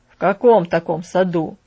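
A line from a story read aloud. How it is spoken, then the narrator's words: Frowning grumble. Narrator (Russian): проворчал Бен, хмурясь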